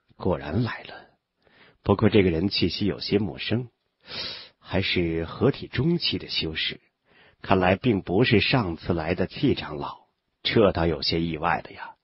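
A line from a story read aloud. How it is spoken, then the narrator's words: Muttering to self. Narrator (Chinese): 韩立喃喃自语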